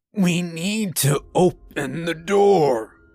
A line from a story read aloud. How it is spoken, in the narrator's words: Still out of breath from being choked by my cat, the priest manages to wheeze